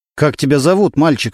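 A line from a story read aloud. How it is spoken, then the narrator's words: Plain question. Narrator (Russian): спросил Немирович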